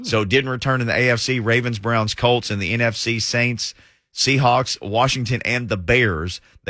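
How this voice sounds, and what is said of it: Strained, hoarse voice. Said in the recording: “as I'm losing my voice here”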